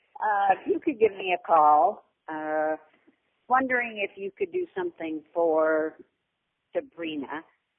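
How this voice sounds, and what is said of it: Hoarse, croaky throat. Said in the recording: “Whoops, excuse me. I have a frog in my throat.”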